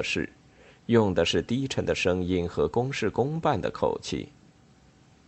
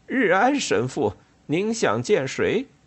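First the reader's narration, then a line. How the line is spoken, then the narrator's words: Howling dog. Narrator (Chinese): 一条猎犬抬起头，嗷叫着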